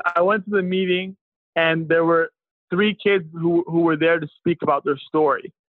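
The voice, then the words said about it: Strained, fading voice. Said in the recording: “Sorry, I'm losing my voice here.”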